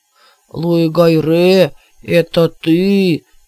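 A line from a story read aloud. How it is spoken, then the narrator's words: Deep troll's bass. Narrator (Russian): пробасил тролль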